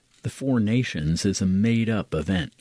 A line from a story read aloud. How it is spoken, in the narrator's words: Arthur says